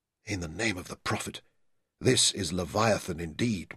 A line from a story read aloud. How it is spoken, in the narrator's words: Mansur said softly